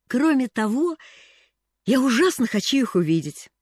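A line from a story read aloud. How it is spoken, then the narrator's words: Exclamation. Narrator (Russian): воскликнула она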